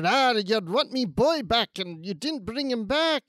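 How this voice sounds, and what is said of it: Put-on Scottish accent. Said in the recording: “with the Scottish accent.”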